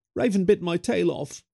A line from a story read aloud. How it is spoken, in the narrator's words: he whined